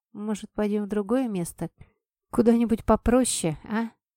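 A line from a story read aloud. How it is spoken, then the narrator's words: Quiet. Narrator (Russian): я тихо сказала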